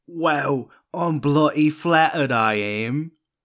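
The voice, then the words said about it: Bad put-on accent. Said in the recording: “How bad is 31's accent if that's 27's?”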